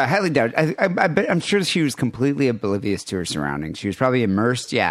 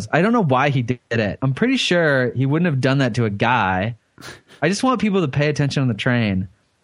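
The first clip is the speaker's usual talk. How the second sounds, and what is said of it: Valley girl voice, rising question intonation. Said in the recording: “my sorority girl impression... it's a California accent... Sounds like a Valley girl... everything. It goes up at the end like a question. They can't make a statement without it being a question”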